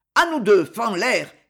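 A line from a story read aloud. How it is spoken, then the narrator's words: Shouting. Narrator (French): cria Capestan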